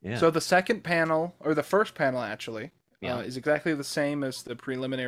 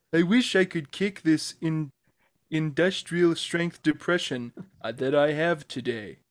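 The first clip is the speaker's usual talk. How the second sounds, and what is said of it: Garfield impression. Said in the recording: “Can I do my Garfield impersonation and read some of these speech balloons? ... He sounded a little bit like Janice”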